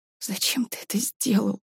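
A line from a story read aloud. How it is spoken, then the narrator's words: Whisper. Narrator (Russian): прошептала Варя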